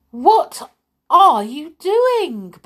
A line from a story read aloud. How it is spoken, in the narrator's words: Belle exclaimed from the doorway